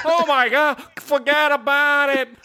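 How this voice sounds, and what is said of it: Poor put-on New York accent. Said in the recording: “I know that's not Brooklyn. That's a horrible Sopranos / Saturday Night Fever accent”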